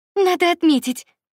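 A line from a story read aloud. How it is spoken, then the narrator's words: Exclaimed. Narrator (Russian): воскликнула Варя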